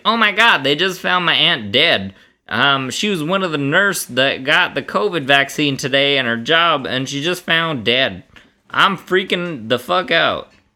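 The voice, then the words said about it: Put-on Alabama Southern accent. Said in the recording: “thank you for the accent ... It was Alabama.”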